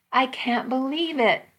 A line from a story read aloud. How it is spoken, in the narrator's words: I cried